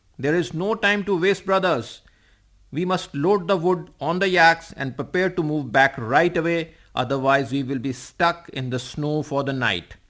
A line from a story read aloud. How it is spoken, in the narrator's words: shouted Uncle Dichan at top of his voice